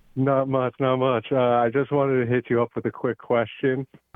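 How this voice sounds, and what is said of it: Very deep, smooth male voice. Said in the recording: “That deep voice. ... Barry White, man. ... got that audible chocolate, man. ... it's soothed, bro.”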